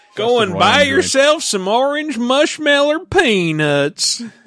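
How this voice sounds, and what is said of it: Cartoon character voice impression. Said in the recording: “That's my Snuffy Smith impression.”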